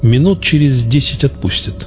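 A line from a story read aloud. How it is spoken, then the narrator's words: Plain. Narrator (Russian): сказал я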